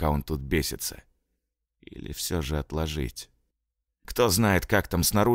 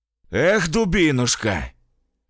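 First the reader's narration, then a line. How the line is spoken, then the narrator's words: Booming soldier's voice. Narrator (Russian): прогудел сержант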